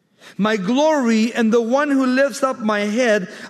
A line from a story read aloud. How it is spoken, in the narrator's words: I cried to the Lord with my voice